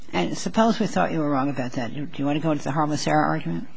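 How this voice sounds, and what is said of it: Quiet, strained voice with a cold. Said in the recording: “I have a bit of a cold, so I'm having a hard time talking up.”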